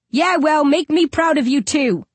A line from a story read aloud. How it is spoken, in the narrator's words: I shout back